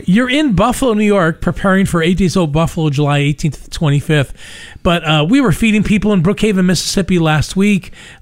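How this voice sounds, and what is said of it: Louisiana accent. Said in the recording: “my Louisiana accent”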